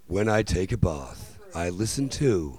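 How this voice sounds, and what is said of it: Radio announcer voice. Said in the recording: “here goes my radio voice.”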